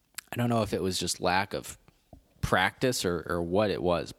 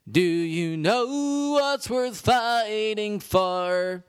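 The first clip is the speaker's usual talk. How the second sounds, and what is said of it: Imitates a singer's voice, spooky. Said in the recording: “My Billy Joe Armstrong impression was never spectacular, but it has really fallen off ... Now it's just like spooky, scary”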